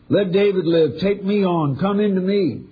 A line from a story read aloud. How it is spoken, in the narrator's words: Desperate to save David's life, Arnie cried out